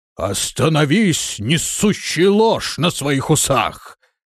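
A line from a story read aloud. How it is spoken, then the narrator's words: Roaring. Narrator (Russian): взревел Бурвидус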